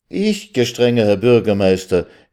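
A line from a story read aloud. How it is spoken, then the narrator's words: Emotional outcry. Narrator (German): rief Räsel mit hervorquellendem Gefühl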